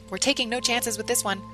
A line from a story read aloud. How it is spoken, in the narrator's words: barked